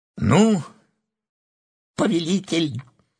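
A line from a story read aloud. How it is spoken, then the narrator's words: Cheerful exclamation. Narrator (Russian): весело воскликнул Эот Линг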